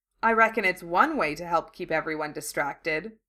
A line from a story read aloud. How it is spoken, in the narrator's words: she added dryly